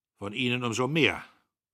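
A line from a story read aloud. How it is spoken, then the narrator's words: Growl. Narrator (German): der Major knurrte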